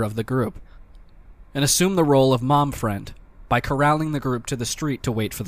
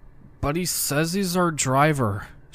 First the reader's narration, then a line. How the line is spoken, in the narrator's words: slurred